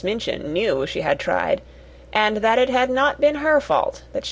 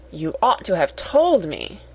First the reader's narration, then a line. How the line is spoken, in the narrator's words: exclaimed Miss Minchin, much mortified